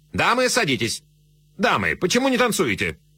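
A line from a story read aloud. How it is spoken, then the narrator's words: Sharp command. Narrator (Russian): резко командуя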